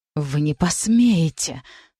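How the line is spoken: Hissed through teeth. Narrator (Russian): сквозь зубы прошипела Францезелин

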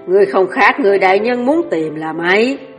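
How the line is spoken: Strange laughter. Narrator (Vietnamese): Kinh Nam Thủ bật cười cổ quái

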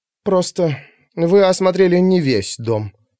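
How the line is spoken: Forced out, wooden voice. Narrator (Russian): выдавила, наконец, Пандора деревянным голосом

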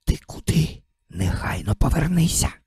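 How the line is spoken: Fierce alarmed whisper. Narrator (Ukrainian): побачивши таке, страшенно прошепотів

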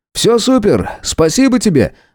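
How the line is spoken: Joyful exclamation. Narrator (Russian): радостно воскликнул Михаил

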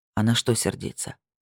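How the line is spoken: Soft question. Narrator (Russian): спросил он мягко

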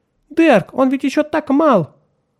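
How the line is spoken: Mother's anxious exclamation. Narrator (Russian): Мать воскликнула

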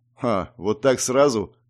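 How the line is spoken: Smirking grunt. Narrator (Russian): хмыкнул Алексей

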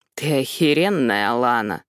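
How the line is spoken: Low voice. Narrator (Russian): низким голосом говорит Себастьян

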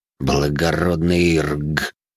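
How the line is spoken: Disgusted, through gritted teeth. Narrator (Russian): С отвращением процедил я

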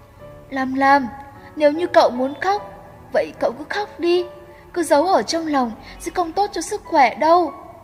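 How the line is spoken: Choked, tearful comfort. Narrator (Vietnamese): Mắt Trần Mạt cũng đã ươn ướt, nghẹn ngào an ủi cô

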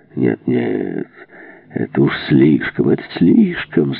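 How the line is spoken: Deafening laughter. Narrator (Russian): захохотал Крейслер, да так оглушительно, что стены задрожали

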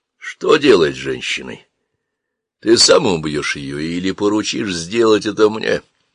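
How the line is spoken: Calm. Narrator (Russian): Сиит Мустафа проговорил это спокойно

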